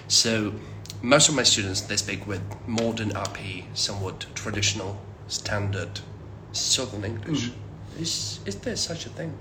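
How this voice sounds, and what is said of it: Northern English accent. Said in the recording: “my accent, northern accent, it's not considered to be the most popular one. So it's not RP, it's not even southern”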